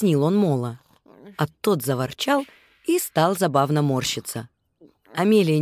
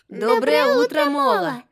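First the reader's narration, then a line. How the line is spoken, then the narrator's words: Little mice giggling. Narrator (Russian): хихикнули мышата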